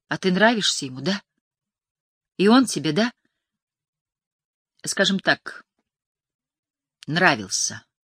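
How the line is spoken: Sighed. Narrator (Russian): вздохнула Джан

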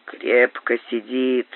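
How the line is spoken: Grumbling, wincing. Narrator (Russian): проворчал Боб, поморщась

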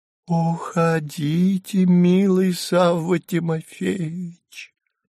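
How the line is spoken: Thin, childlike, halting. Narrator (Russian): Прерывисто вздохнув, тоненьким, почти детским голоском проговорила она

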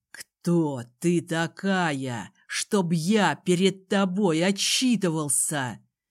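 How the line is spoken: Hissed. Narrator (Russian): прошипел он

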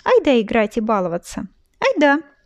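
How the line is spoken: Cheerful little girl. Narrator (Russian): весело согласилась маленькая сестренка

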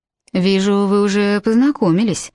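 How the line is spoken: Lazy, smiling. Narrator (Russian): лениво улыбаясь, сказал Дэвид

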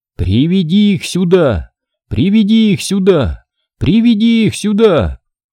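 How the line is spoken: Shouting. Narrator (Russian): Адарья закричала

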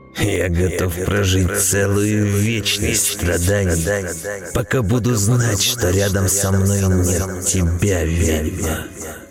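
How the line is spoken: Sepulchral ghostly voice. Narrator (Russian): загробным голосом произнес дух

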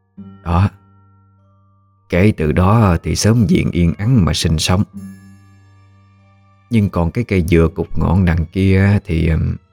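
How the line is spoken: Deep hoarse old woman's voice. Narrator (Vietnamese): Bà cất cái giọng nói ồm ồm

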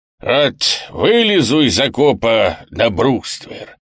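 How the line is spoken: Hoarse drunken general. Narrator (Russian): хриплым пьяным голосом вещал надоевший всем генерал

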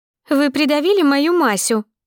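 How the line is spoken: Unexpectedly thin squeak. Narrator (Russian): пискнула толстуха неожиданно тонким голоском

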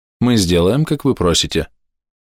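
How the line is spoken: Calm girl's reply. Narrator (Russian): спокойно ответила вторая девушка

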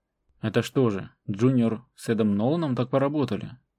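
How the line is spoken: Choked out in disgust. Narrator (Russian): Задыхаясь от отвращения, выдавила второй лейтенант Кин

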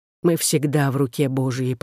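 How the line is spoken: Whisper. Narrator (Russian): прошептал он

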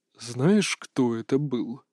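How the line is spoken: Quiet question. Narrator (Russian): тихо спросил наставник

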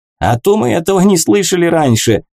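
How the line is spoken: Laughing. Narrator (Russian): засмеялся Гнешно

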